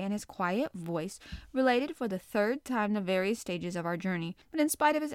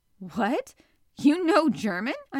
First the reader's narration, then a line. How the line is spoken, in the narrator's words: I exclaimed